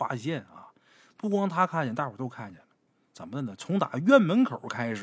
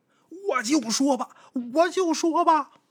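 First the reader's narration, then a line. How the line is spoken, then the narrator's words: Sudden shout. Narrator (Chinese): 他突然间喊起来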